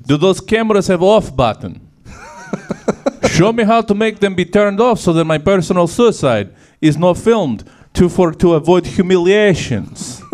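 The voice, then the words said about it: Put-on Russian accent. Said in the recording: “Russia accent is my favorite of all the ... voices.”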